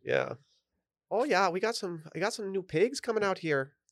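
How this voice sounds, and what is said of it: Attempted Canadian accent sounding Irish. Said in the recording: “I don't know how I went Irish there. I was trying to do my Canadian. I feel like my Canadian accent's gotten much worse”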